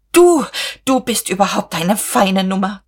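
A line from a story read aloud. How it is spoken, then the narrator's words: Hissing. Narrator (German): zischte sie Käthchen zu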